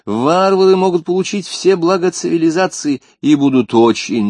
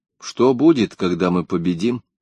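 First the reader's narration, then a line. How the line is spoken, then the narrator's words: Plain. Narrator (Russian): спросила она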